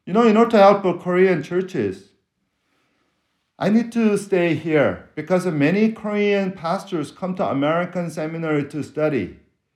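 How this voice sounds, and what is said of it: Korean-accented English. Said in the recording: “I'm from West Korea ... Maybe I speak with a foreign accent”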